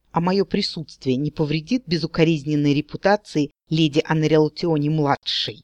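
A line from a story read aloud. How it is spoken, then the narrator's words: Hissing like scalded cat. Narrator (Russian): прошипел Эренрандир, словно ошпаренный кот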